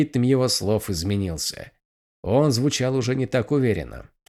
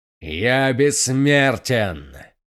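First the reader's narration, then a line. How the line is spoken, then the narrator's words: Growl. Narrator (Russian): прорычал преследователь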